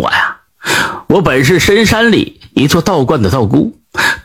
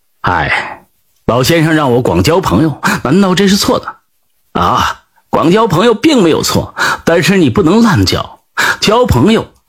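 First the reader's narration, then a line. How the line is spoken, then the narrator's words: Sighing. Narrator (Chinese): 李山羊叹道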